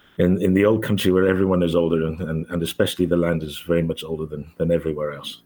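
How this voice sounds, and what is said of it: Australian-South African accent. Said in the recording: “what is that accent that we're hearing in your voice ... it's an Australo-African voice”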